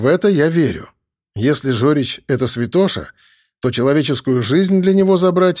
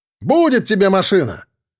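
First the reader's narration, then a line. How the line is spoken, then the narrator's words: Shouting. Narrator (Russian): крикнул я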